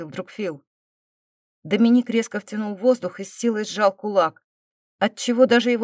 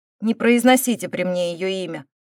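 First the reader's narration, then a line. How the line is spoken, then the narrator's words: Irritated, through gritted teeth. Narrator (Russian): раздраженно процедил Ник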